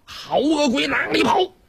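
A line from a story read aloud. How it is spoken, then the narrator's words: Shout. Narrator (Chinese): 晁盖喊了一声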